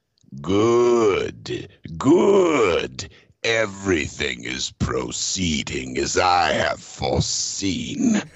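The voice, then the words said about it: Impression of Emperor Palpatine's voice. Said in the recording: “impersonation ... I meant to say the Emperor, Emperor Palpatine.”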